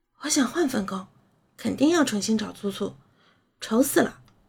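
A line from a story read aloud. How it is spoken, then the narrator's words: Soft voice. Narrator (Chinese): 施诺然轻声道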